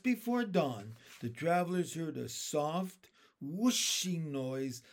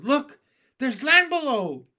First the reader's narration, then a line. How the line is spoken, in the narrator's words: the centipede, who always seemed to see things first, shouted